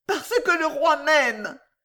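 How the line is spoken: Breathless shout. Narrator (French): cria Jeanne pantelante

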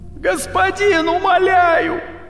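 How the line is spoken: Shout from crowd. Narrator (Russian): Закричал кто-то из толпы

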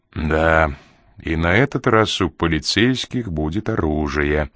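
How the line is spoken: Grim. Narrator (Russian): мрачно добавил Ян

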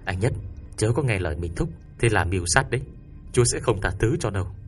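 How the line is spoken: Flustered, hurried. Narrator (Vietnamese): Sư Lê Dương cũng rối rít nói

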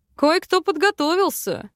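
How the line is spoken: Snort, husband. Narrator (Russian): хмыкнул муж

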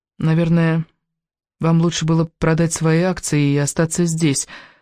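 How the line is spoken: Timid remark. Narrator (Russian): робко заметила она

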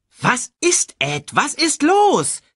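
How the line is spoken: Shrieking. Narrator (German): kreischte Shensi

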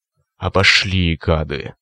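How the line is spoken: Hissed by a cyclops. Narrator (Russian): прошипел циклоп

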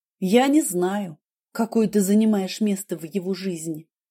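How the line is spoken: Plain. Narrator (Russian): сказала я

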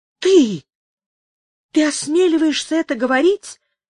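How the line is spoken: Exclamation. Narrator (Russian): воскликнула Амаранта

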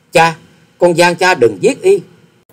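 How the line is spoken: Choked cry. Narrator (Vietnamese): nghẹn ngào kêu lên

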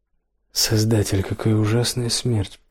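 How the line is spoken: Muttered. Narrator (Russian): пробормотал Карл

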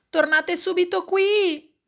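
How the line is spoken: Shout. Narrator (Italian): grida papà

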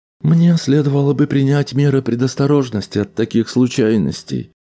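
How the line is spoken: Sad boat speaking. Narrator (Russian): грустно промолвила шлюпка

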